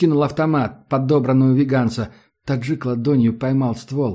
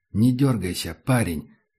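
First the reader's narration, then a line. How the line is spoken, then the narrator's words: Quiet. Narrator (Russian): сказал негромко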